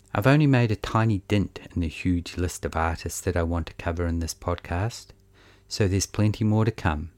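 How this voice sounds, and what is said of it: Monotone New Zealand accent. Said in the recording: “the dull monotone of my Kiwi accent”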